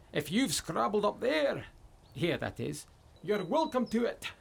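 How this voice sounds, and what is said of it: Put-on Scottish accent. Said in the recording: “Nice Scottish accent.”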